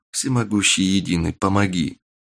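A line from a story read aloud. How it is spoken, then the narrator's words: Young man whispering. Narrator (Russian): Прошептал парень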